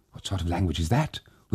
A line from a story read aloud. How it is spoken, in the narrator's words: whispered the daughter-in-law, terrified